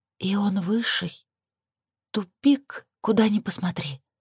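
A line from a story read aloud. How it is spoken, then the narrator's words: Whisper. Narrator (Russian): прошептала Лилит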